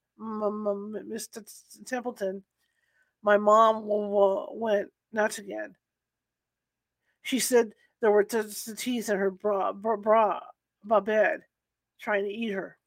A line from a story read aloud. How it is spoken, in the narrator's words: stammers